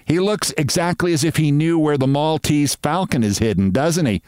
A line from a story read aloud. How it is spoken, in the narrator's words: said Sylvia with the laugh that annoys me